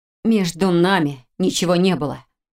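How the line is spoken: Strained, through teeth, near tears. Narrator (Russian): процедила Хильда, почувствовав, как сжалось горло, а глаза защипало

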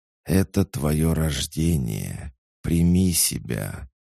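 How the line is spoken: Snake's quiet hiss. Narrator (Russian): тихо прошипел змей

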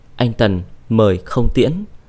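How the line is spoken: Cold voice. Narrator (Vietnamese): giọng nói lạnh lùng

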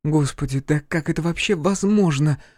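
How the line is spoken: Anguished pleading. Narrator (Russian): взмолилась Оливия с тоской

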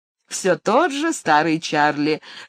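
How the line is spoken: Laughing. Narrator (Russian): засмеялась Лаки

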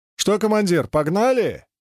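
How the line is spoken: Impatient shout. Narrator (Russian): нетерпеливо крикнул оператор глайдера Пикачев

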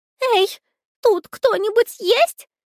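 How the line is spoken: Shout. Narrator (Russian): прокричала она

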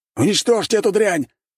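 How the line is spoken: Shouted. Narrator (Russian): прокричал шатен

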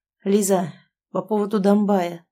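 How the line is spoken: Hoarse. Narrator (Russian): начинает Сашка хрипло

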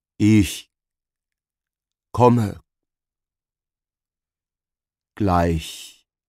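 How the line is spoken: Slow, deliberate. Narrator (German): sagte Gregor langsam und bedächtig

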